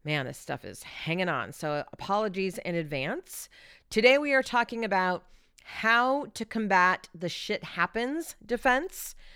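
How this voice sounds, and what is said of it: Odd-sounding sick voice. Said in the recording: “If my voice sounds odd, it's because I've been struggling with bronchitis since the day after Christmas.”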